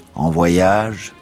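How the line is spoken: Plain. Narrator (French): me demanda-t-il

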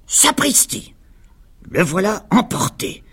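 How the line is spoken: Grumbling. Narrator (French): grommela Donald

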